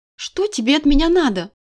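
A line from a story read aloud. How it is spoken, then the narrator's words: Indignant. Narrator (Russian): возмутилась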